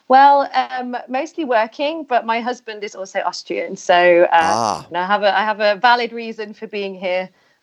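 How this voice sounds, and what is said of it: British English accent. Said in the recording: “I'm going to infer from your accent that you are originally from the United Kingdom”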